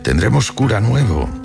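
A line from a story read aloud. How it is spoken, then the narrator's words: Plain. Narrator (Spanish): le dijo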